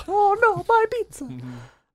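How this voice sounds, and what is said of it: Weak put-on Italian accent. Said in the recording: “For being an Italian, I should be able to do an Italian accent better.”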